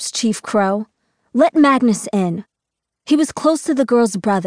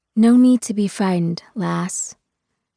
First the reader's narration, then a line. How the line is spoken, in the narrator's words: she says softly